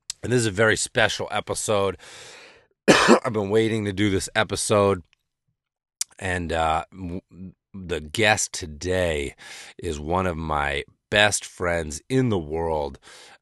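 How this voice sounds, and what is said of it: Rough, hoarse voice. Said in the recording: “You can still hear I'm a little rough ... I just did a few passes on this intro and kept fucking it up, so that's why I'm a little hoarse already”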